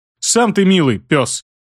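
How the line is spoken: Girl snapping back. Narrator (Russian): огрызнулась девочка

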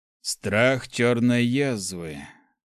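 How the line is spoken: Sighing. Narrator (Russian): вздохнул Сармат

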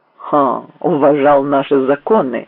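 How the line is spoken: Scoffing grunt. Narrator (Russian): хмыкнул Селезнев

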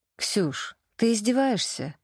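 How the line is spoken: Tired female reply. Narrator (Russian): Устало отозвалась я

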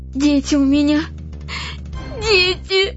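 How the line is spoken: Sobbing bitterly. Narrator (Russian): разрыдалась вдруг так горько, что не в силах продолжать

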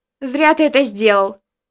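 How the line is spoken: Shout while running. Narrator (Russian): догоняя меня, выкрикнула Даша

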